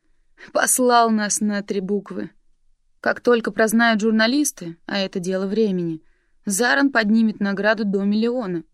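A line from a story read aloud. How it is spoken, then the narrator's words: Grumbling. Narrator (Russian): проворчал Кент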